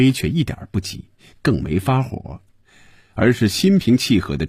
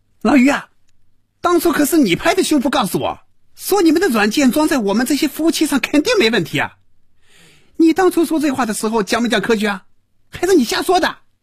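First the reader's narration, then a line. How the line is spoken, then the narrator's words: Loud furious shouting. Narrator (Chinese): 赵平凡被余威彻底激怒了，真要骂人了，大声嚷着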